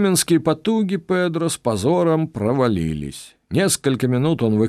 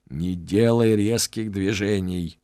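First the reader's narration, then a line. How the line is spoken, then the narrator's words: Hissed. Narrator (Russian): прошипел я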